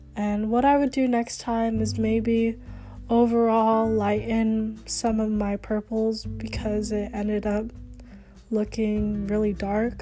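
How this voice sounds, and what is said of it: Slightly weird, sick-sounding voice. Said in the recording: “I'm sorry that my voice sounds a little weird. ... I'm getting over sickness”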